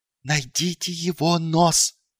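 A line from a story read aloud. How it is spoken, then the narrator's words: Hissing. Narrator (Russian): прошипел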